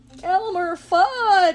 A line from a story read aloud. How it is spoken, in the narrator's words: gasped